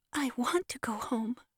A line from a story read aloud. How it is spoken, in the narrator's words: said the child, with a sob in his voice